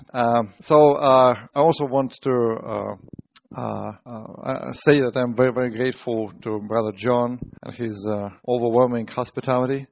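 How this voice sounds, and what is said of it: Strong Russian accent. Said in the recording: “I have a strange accent, because I learn English from Americans mostly, so I must have strong Russian accent”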